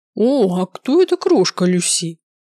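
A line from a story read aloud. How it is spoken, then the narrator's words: Booming man. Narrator (Russian): прогудел мужчина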